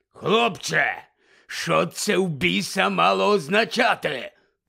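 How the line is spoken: Hoarse voice trembling with rage. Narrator (Ukrainian): прохрипів дядько Вернон тремтячим від люті голосом

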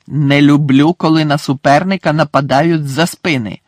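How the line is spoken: Growled. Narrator (Ukrainian): загарчав Муді

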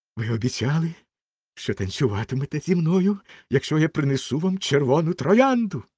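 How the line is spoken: Exclaiming. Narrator (Ukrainian): вигукнув студент

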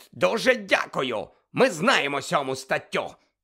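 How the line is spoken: Hissed. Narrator (Ukrainian): прошипів Фадж

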